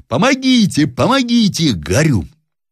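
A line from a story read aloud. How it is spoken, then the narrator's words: Desperate screaming. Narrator (Russian): Зарядев бледный как смерть, кричал отчаянным голосом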